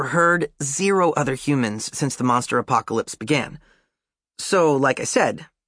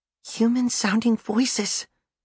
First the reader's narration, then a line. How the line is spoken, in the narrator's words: June whispers